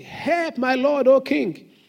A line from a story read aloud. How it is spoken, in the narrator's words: a woman cried out to him, saying